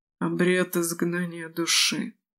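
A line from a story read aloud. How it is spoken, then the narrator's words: Whisper. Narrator (Russian): прошептала Италь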